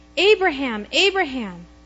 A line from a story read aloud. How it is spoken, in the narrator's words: the angel of the Lord called out to him from heaven